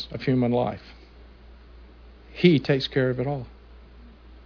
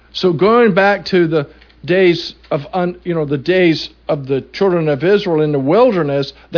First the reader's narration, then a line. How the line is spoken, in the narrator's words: they cried out to God